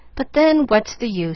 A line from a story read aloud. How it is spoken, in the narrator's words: she sighed, fretfully